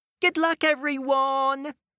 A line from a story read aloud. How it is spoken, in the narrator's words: Unicorn called out to her friends